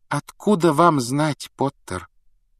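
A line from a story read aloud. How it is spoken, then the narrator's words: Gentle objection. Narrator (Russian): мягко возразила МакГонагал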